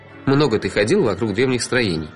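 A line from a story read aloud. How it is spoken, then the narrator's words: Mocking inner voice. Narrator (Russian): Насмешливо вопрошало сердце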